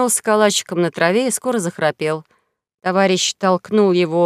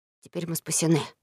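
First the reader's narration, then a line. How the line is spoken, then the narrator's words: Whisper. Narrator (Russian): шепнул Том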